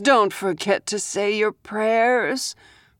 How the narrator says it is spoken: Rose sighed

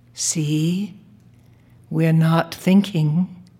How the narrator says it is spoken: I whispered in his ear

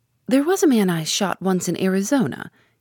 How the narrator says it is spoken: he began cheerfully

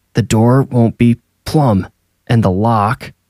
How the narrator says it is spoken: Percy said, grunting as he worked

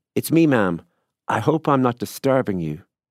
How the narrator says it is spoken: a voice that was vaguely familiar called out, and confidently from below

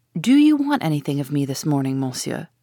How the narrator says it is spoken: she asked

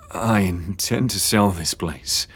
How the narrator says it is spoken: James murmured through clenched teeth

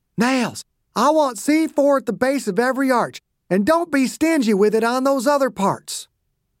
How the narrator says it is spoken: Dew kept shouting

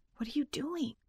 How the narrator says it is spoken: she whispered

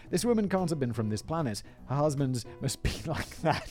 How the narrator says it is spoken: he pleads full flaccidity, saying

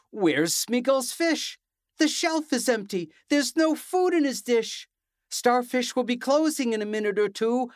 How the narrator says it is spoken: Valerie cried

